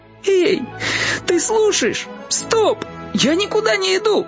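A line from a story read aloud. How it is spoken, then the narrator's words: Exclaiming. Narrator (Russian): Воскликнул растяпа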